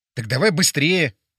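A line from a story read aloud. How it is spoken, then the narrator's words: Exclaiming. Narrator (Russian): воскликнул я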